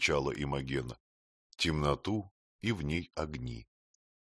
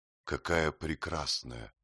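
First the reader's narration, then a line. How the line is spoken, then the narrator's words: Quiet reply. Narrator (Russian): тихо ответила она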